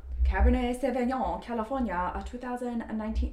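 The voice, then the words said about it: Briefly shifts into a different accent. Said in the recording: “I don't know why my my accent changed”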